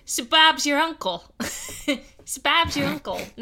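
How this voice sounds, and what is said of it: Attempted Australian accent impression. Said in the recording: “Cambo is from Australia, and his accent is the best ... No, that's not what he says.”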